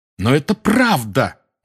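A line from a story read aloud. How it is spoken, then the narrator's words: Exclamation. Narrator (Russian): воскликнул Гарри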